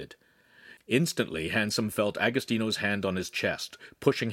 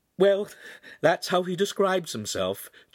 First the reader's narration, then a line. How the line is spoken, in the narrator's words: Giulietta laughed again